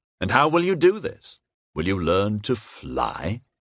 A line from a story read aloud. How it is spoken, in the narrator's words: His voice was skeptical